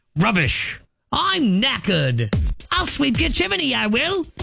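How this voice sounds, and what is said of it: Put-on British accent. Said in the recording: “I'm working on my British accent.”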